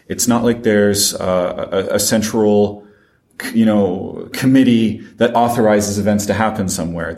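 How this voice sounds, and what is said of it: French accent. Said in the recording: “my accent, I am French”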